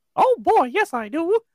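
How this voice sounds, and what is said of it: Good Mickey Mouse cartoon voice. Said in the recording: “You do a good Mickey voice.”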